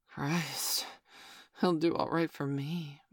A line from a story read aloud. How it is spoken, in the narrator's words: Mum breathed